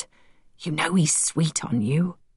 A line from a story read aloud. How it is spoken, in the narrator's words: Hurst whispered